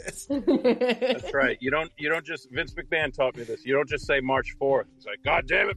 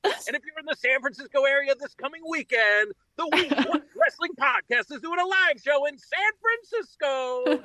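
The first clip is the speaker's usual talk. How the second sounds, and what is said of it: Cheesy wrestling-promo announcer voice. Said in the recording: “watching wrestling promos and then putting on the cheesiest voice possible”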